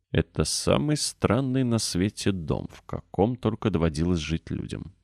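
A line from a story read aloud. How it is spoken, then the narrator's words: Sleepy mutter to herself. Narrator (Russian): сонно пробормотала Мэри себе под нос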